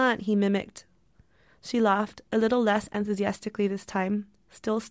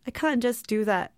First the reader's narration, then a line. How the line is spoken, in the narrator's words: she laughed